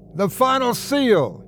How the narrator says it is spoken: he yelled

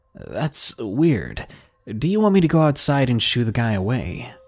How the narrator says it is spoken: I asked

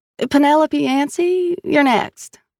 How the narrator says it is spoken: she called in a drawl Sal recognized as Georgian

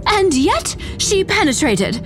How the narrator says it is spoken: JJ cried

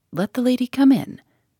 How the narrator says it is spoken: he said cheerfully

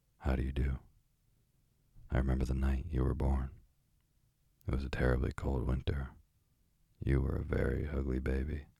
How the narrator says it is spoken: The parrot said quite plainly in English

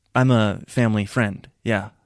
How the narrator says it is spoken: I said stiffly

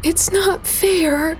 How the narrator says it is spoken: cried

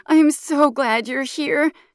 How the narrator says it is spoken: she slurs

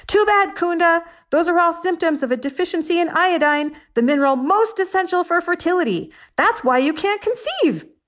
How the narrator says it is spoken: I yelled

